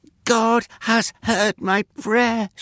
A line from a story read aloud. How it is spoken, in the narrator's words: she exclaimed, her cheeks flushed with happiness